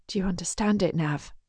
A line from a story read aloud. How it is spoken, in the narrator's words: She asks quietly